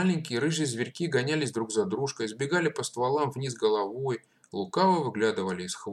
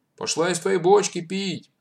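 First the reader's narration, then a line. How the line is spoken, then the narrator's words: Man shouting. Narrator (Russian): крикнул Панков Матвею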